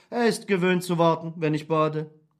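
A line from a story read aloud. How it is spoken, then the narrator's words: Calm reply. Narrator (German): entgegnete ruhig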